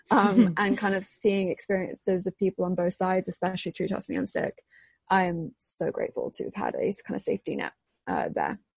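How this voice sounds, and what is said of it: English accent. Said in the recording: “where I come from in England ... I'm also half American, despite the accent”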